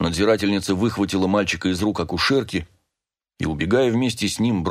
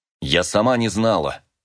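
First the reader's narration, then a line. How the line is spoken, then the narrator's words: Angry snap. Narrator (Russian): злобно огрызнулась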